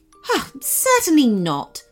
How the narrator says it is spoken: said the unicorn sharply

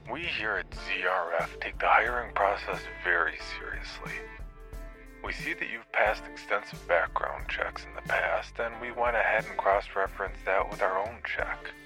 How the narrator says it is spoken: Fink said with a hint of boredom in his already robotic voice

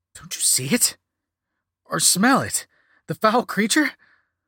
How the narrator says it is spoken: louder than expected

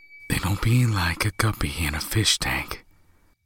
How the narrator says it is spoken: David said softly

